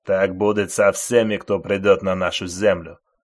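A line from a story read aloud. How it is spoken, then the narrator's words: Menacing voices in unison. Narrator (Russian): Грозно сказали они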